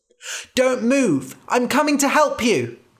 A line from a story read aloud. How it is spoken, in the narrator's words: cried